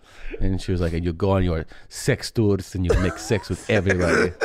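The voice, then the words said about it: Imitates mother's accented voice. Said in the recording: “I love your mom's accent.”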